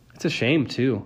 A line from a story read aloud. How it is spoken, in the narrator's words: I sighed